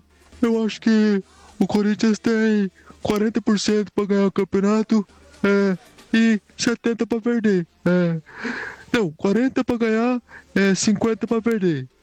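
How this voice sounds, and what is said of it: Poor imitation of another person's voice. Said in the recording (Portuguese): “o cara ainda é péssimo para imitar o Casagrande. É muito ruim”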